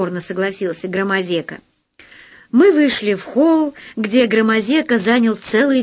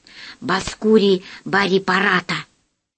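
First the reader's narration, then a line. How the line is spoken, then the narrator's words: Whisper. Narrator (Russian): сказал шепотом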